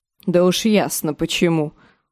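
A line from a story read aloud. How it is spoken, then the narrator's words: Aunt's scornful snort. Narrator (Russian): фыркнула тетка Амабель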